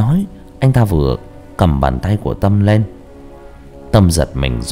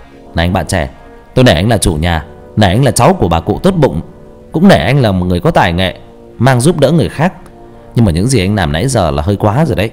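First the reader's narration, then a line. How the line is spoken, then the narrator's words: Angry shout. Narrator (Vietnamese): Hào máu nóng sôi lên, quát lên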